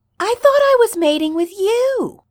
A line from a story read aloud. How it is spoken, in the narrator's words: Styles shouts in frustration